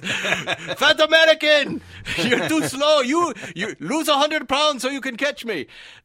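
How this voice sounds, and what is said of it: Shouted put-on German accent. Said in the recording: “he's just screaming at me ... he's got a German accent.”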